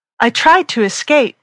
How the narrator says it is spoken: she cried, her face as red as a beet with the heat

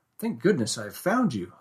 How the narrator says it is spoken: I exclaimed

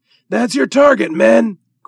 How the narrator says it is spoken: cried the doctor

